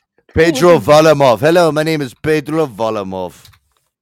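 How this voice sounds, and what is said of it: Mock Mexican-Russian accent. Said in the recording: “could do a Mexican Russian impression”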